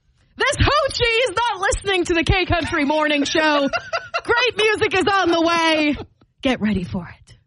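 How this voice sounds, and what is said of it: Theatrical dramatic put-on accent. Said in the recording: “hit me with that accent again? Give me some drama. Give me a nice dramatic out”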